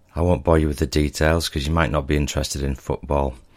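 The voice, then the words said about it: Very hoarse voice. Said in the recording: “my voice has changed, I'm very hoarse today because I've been cheering my team on”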